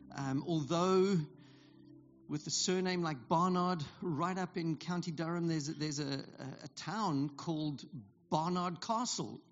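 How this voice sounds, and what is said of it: Non-British accent. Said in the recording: “As you can tell by my accent, I am not here. By, I wasn't born here.”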